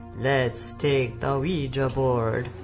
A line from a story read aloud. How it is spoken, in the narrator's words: He spoke in an eerie voice